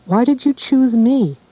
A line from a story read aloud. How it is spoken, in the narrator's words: she cried again